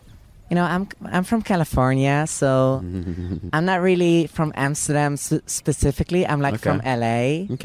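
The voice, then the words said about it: Attempted American accent, slightly English. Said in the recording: “Do you have an American accent that you can do? ... I can try, you know, maybe American accent ... there's a little English in there”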